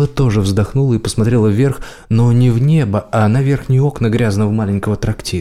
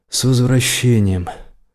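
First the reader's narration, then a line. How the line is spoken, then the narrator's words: Sigh, tossed over shoulder. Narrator (Russian): Бэрон вздохнул и шагнул внутрь, бросив через плечо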